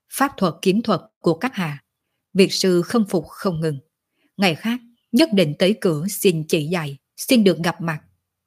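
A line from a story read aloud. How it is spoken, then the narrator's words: Soft, low. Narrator (Vietnamese): Việt Sư nhẹ nhàng thấp giọng nói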